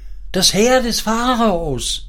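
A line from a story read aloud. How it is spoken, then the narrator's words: Boy shouting. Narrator (German): schrie der Knabe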